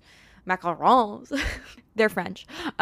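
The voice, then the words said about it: Put-on accent. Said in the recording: “my accent that I just put on”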